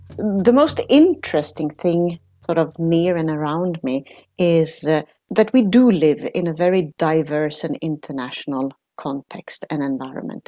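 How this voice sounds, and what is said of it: Italian-Swedish accented English. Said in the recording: “you hear a funny accent... I'm Italian, but I grew up in Sweden”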